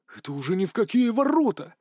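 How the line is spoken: Angry hiss. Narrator (Russian): злобно шипел прапорщик Лентовский

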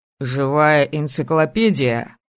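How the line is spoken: Snorted. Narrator (Russian): фыркнул Виктор

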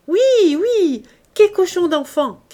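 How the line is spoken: Whole table shouting. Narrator (French): criait toute la table

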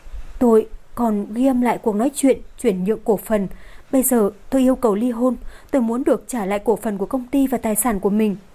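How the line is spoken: Slow, strained, trembling. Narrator (Vietnamese): dường như cô ấy có chút khó mở miệng, kiềm chế cơ thể đang run rẩy, chậm rãi nói

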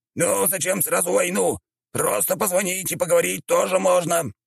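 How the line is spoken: Exclaiming dog. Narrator (Russian): воскликнул пес

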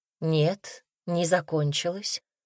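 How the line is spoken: Calm reply. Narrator (Russian): спокойно ответила

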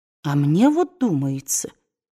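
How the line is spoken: Uncertain. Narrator (Russian): сказала неуверенно миссис Элсинг

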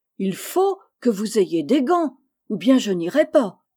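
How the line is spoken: Determined exclamation. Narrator (French): s'écria Meg d'un ton décidé

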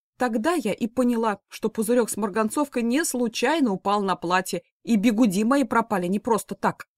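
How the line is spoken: Brisk lively exclamation. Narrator (Russian): бойко воскликнула женщина

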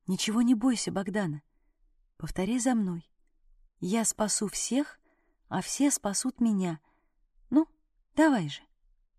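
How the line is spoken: Whispered in ear. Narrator (Russian): шептала в ухо

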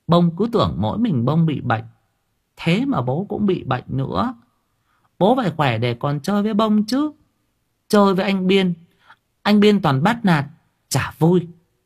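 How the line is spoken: Cheerful child chattering. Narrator (Vietnamese): khuôn mặt nó hớn hở hồng hào, miệng nói líu lô

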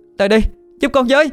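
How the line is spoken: Pained desperate loud shout. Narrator (Vietnamese): tôi mặc kệ cơ thể đang đau nhức ... hét lớn

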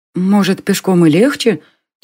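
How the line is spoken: Quiet. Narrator (Russian): тоже негромко сказала Селена

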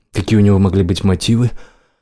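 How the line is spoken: Sighing. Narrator (Russian): Ланс вздохнул

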